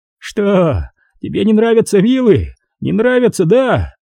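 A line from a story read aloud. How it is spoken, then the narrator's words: Frightened, half-mad laughing shout. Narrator (Russian): Майерс разразился отрывистым, испуганным, полубезумным смехом, закричав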